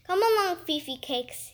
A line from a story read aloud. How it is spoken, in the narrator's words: he said